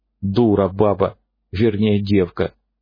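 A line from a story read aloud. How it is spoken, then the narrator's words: Calm summary. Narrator (Russian): спокойно резюмирует клещ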